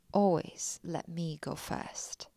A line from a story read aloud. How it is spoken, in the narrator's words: he said